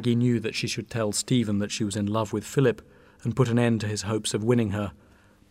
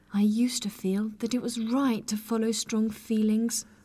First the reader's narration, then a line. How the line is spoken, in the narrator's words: said miserably